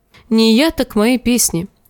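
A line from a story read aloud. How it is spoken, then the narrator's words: Laughing. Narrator (Russian): засмеялся он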